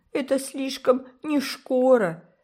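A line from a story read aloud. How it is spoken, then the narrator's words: Sob. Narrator (Russian): всхлипнула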